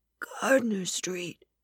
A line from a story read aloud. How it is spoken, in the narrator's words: Kyle whispered